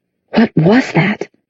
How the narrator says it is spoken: Jace whispered

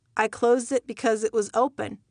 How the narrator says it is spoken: I replied

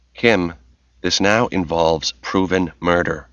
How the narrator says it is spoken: Tracy said evenly

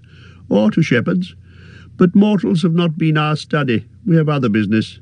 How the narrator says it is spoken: laughed Lindir

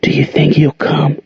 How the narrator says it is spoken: whispered

